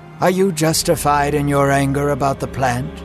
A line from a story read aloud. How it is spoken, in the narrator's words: God asked Jonah